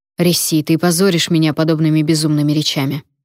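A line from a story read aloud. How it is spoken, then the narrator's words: Sharp. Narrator (Russian): резко сказал Вонвальт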